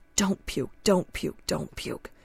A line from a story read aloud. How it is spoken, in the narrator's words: my mind chanted desperately